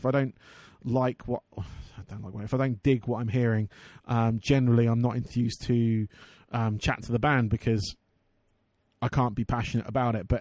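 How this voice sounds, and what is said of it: Hoarse, fading voice. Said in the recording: “I'm losing my voice as well. It's not good.”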